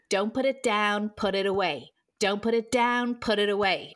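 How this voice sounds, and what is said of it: Put-on American accent. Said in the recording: “if you say it in the American accent”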